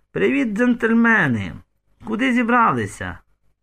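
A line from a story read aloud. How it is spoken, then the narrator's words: Very loud exclamation. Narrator (Ukrainian): Людка аж занадто голосно вигукнула, навіть Катерина в хаті почула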